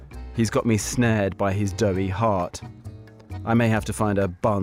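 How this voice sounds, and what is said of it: Usual voice. Nothing is said of it.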